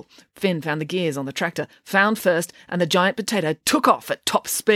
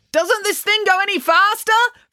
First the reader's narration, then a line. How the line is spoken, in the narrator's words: Finn pleaded to Neil